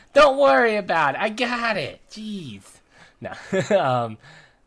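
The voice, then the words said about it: Put-on 1920s gangster accent. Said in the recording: “It's supposed to be a 1920s gangster accent.”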